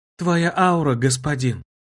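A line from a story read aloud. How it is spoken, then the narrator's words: Quiet speech. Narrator (Russian): тихо произнесла Льюнари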